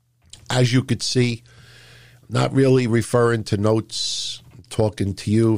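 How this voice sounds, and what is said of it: Rough, worn-out voice. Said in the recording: “my voice sounds a little bit, you know, rash tonight ... it's a little shoddy”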